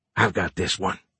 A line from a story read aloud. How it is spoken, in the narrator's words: Fisher whispered